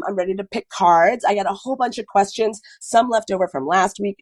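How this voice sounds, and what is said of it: Congested voice with a cold. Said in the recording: “Listen to my voice, you guys. It's not sexy, is it? I have a cold. ... this like weird cold that's making me sound like, I wish it was a little bit more like Lois Laney, like rough, sexy like voice. But instead, I just feel like I sound a little bit like a like some sort of like garbage troll.”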